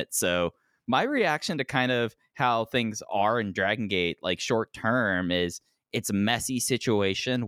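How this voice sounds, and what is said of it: Congested, sinus-affected voice. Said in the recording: “I apologize for my voice. I've been dealing with massive sinus issues over the last week”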